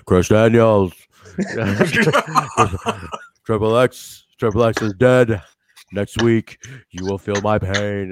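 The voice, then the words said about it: Imitates another person's voice. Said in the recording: “your Loki impression”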